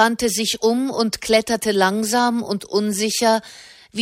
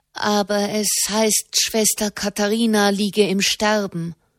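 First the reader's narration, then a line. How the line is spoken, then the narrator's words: Young person stammering. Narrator (German): stammelte der junge Mensch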